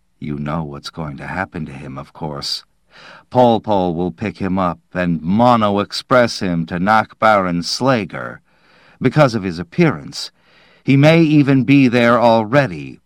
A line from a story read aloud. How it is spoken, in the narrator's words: said in a carefully controlled voice